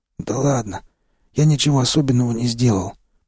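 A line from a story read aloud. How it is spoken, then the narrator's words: Hoarse, anger forgotten. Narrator (Russian): прохрипел, забыв о своей недавней злости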